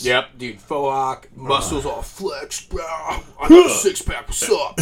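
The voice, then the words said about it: Bro-style impression voice. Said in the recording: “Your impression work is great. I love it.”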